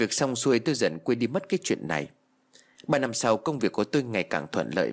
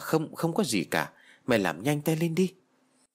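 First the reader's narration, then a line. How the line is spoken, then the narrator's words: Stammering reply. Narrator (Vietnamese): Tôi lắp bắp trả lời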